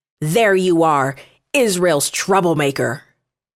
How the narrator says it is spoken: he shouted

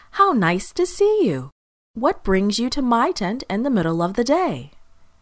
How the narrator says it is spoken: exclaimed Lot

